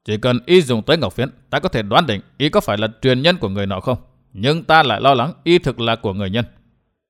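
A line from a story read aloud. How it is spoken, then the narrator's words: Lowered voice. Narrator (Vietnamese): Đỗ quái bà hạ giọng nói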